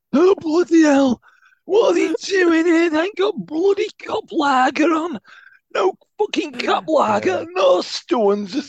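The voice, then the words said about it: Broad Sheffield football fan accent. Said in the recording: “the generic Sheffield United fan ... Just a rough ass blade with a broad accent.”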